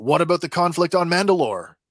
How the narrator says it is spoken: Carson blurts out

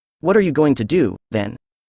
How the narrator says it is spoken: I asked

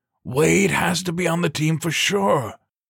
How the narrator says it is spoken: Kowalski cried, near choking as he struggled to swallow his giant mouthful

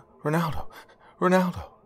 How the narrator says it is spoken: calling out desperately

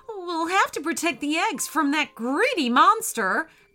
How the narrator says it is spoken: cried the friendly octopus

